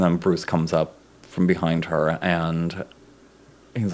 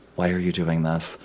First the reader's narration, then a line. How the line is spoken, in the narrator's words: she very softly says to herself, to her reflection